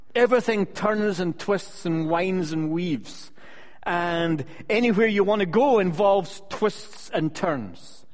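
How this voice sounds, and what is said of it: Scottish accent. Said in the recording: “my accent isn't from California ... where I come from, Scotland ... my preaching is Scottish”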